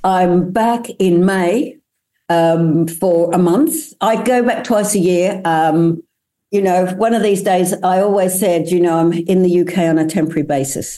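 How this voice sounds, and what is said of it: Australian accent. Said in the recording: “you still got your Aussie accent, even though you've been overseas for so many years now”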